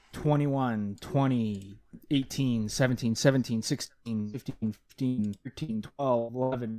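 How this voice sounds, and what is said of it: Robotic-sounding voice. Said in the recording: “you sounded like a robot there ... my robot impression”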